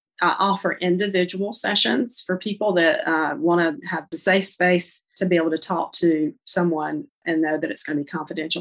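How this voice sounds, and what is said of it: North Carolina accent. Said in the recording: “I'm from Charlotte, North Carolina, if you can't tell from my accent.”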